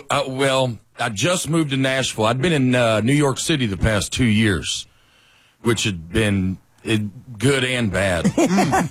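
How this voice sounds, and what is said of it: North Alabama Southern accent. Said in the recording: “Let's pinpoint the accent right away. You grew up where? North Alabama, mm-hmm. Right outside of Huntsville.”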